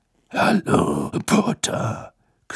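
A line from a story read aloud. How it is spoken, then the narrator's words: Growling. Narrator (German): knurrte Moody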